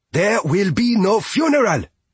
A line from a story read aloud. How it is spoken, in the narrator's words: Fia shouted